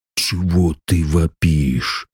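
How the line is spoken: Grumbling. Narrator (Russian): проворчал захребетник

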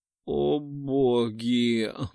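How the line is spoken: Hoarse moan. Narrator (Russian): Вырывается из моего охрипшего горла очередной стон

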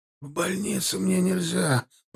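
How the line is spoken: Moaning. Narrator (Russian): простонал Федя

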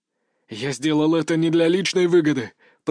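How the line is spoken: Through gritted teeth. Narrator (Russian): процедил Синицын

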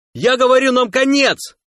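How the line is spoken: Yelling. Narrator (Russian): заорал тахосянин

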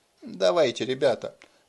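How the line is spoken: Whisper. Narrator (Russian): прошептал Деннис

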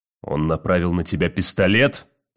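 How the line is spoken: Savage, brutal voice. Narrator (Russian): спросил Уит зверским голосом

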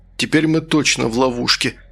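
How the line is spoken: Sigh. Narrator (Russian): Вздохнул Манукян

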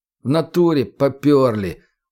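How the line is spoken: Glum. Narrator (Russian): уныло кивнул чекист

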